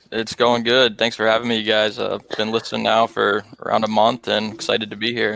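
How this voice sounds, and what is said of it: Distinctive American accent. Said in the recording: “all the way from America ... I'd like to think I probably have the most unique accent. ... You certainly do.”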